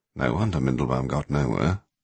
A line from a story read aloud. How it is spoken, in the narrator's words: Christomancy murmured